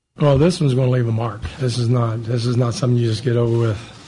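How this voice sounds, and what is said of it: Half Southern, half Jersey accent. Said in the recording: “His accent is so weird. It's almost like Al Davis's ... Like half Brooklyn ... it's half Southern and half Jersey.”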